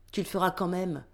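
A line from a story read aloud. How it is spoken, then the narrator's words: Firm command. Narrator (French): ordonne son boss d'un ton ferme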